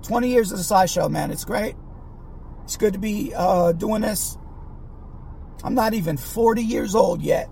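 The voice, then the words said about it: Rough, damaged sick-sounding voice. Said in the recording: “My voice is all fucked because I've been sick.”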